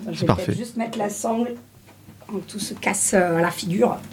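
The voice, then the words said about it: Slight put-on Marseille accent. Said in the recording (French): “je prends un petit accent marseillais”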